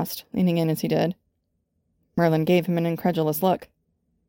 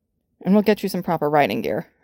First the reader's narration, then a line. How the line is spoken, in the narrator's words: Arthur added firmly